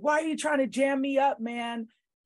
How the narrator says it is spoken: yelling so loud, and he just kept yelling

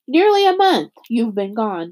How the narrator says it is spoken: Dune said

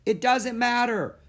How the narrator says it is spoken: she yelled back

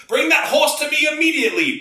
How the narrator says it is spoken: barked High Watchman Pussimus Maximus

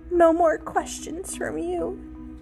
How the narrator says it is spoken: finally murmured

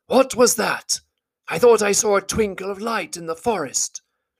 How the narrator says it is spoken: Balin, who was a little way ahead, called out

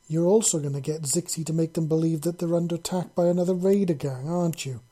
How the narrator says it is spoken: Leah exclaimed

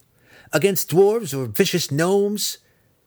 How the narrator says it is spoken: Driz squeaked, as wide-eyed as a child begging for a frightening bedtime story

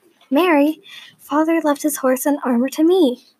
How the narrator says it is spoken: Elizabeth exclaimed

